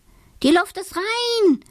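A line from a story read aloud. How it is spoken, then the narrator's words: Calling out. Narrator (German): ruft er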